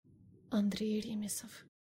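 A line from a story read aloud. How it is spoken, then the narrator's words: Whispered. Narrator (Russian): шепотом добавила я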